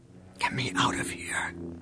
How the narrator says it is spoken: she whispered to Luke

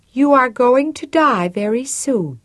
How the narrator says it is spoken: Rachel Garrett said to her in a calm voice

